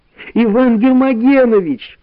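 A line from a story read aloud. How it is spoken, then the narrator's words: Shouted. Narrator (Russian): закричала Валя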